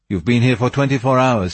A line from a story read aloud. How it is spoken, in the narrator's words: he said